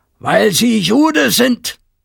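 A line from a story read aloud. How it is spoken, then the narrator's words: Very loud scream. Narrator (German): Herr Resch schrie so laut, dass es durch das Haus schallte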